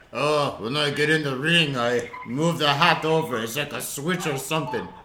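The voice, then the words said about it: Attempted impression sounding Russian-accented. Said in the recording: “I don't know what accent that is. That's my Sylvester Stallone accent ... Well, that was a Russian accent. I was trying to do Sylvester.”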